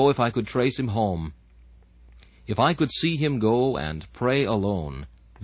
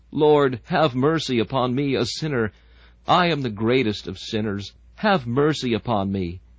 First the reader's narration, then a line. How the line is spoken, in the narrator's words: He begins groaning and crying, till at last he stammers out